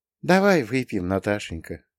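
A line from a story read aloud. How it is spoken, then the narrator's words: Quiet. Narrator (Russian): тихо сказала Лидия Васильевна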